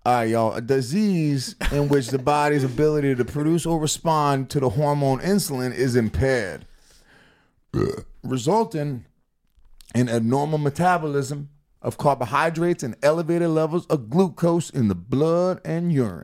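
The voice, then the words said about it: Put-on Black American accent. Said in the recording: “Do a black accent. Go. ... You read better as a black guy.”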